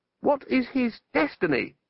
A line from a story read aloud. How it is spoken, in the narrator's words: shouted Ipslore above the rising gale